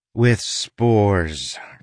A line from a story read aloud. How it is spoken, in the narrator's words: Crow said, sighing